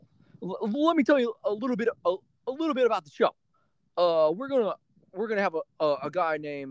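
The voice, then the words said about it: Stuttering imitation of another person's voice. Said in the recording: “I'm stuttering my words because that's exactly how he is on the mic. ... Your little shitty impressions”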